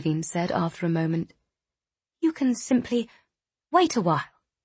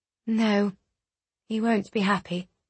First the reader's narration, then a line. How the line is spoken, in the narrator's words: replied Ludovine evenly